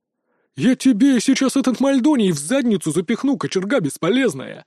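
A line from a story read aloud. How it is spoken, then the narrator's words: Barking snap. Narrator (Russian): рявкнул Лат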